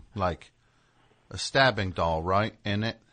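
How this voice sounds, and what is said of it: Imitated English accent. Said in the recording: “You do a great English accent.”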